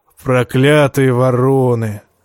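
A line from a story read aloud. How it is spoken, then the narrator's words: Affectionate grumble. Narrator (Russian): как-то даже ласково проворчал Тормунд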